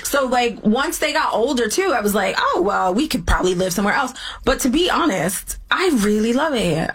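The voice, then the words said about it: British accent. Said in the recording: “Eve has a British accent. All the way from Philly.”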